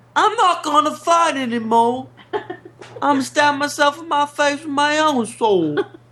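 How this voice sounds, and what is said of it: English accent drifting into Southern. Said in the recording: “What accent is this? It started like English. ... All of a sudden, it's like Southern.”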